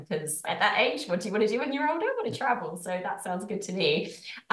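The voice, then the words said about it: British accent, possibly mixed. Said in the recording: “I'm from the UK. Sometimes my accent confuses people.”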